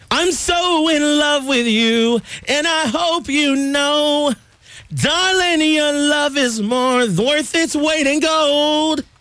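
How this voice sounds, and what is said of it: Strained, worn-out singing voice. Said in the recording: “my voice has been kind of shot this week”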